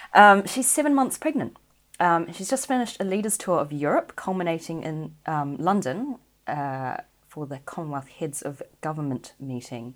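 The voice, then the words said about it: New Zealand accent. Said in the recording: “New Zealand, which is where I'm from, if you haven't gathered from my accent”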